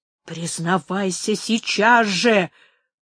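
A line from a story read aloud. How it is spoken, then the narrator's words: Hissed. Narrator (Russian): прошипел Фрацко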